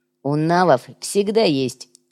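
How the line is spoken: Amused snort. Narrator (Russian): хмыкнул Шкварка

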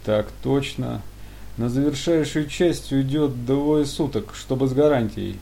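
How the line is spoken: Tired. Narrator (Russian): устало вымолвил силовик

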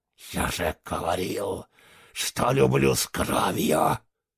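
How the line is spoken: Furious hiss through teeth. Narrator (Russian): В ярости прошипел он сквозь зубы

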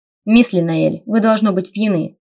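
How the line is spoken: Sharp reply. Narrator (Russian): ответил резко

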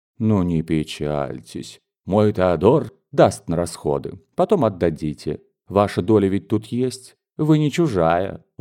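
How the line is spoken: Gentle comforting aunt. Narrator (Russian): ласково утешала ее тетка

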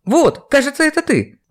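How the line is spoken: Exclaiming. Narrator (Russian): воскликнула администратор

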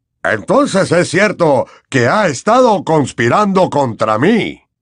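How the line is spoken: Shrill shriek. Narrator (Spanish): chilló

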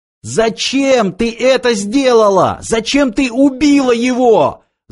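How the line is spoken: Scout shouting. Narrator (Russian): закричал разведчик

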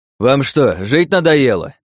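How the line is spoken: Barked. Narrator (Russian): рявкнул я

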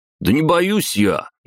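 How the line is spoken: Louder shout, young man. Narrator (Russian): еще громче крикнул парень

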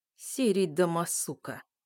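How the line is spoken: Rude tone. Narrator (Russian): обращаюсь к губастому грубым тоном

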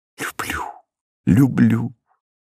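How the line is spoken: Whisper. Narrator (Russian): шепнула она

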